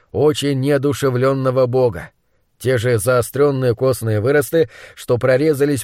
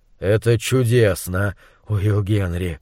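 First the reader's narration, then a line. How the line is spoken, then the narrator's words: Breathy exhale over buzzing. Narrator (Russian): выдохнул монстролог, заглушив сводящее с ума гудение мух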